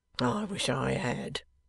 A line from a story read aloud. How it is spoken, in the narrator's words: mutters Wegg, with his back turned